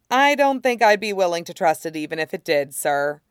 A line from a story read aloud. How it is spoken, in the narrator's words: Kix says dryly